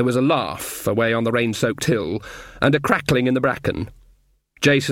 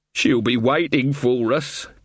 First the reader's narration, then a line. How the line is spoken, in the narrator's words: Carter wailed